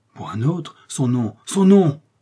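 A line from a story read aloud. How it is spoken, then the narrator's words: Furious exclamation. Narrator (French): s'écria d'Artagnan, furieux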